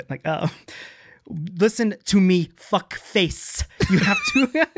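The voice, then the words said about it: John Malkovich impression, his cadence. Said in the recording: “John Malkovich ... I did practice a Malkovich before. It's not gonna do great now because I was still workshopping it, but it's not the voice, it's the cadence that he speaks”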